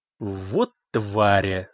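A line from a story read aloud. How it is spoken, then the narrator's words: Old man's hiss through teeth. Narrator (Russian): сквозь зубы прошипел пожилой шофер-таксист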